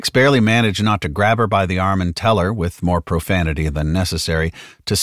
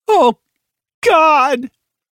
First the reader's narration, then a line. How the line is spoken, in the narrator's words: Halliday stopped short and wailed